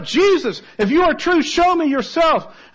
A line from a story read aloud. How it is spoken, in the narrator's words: He cried out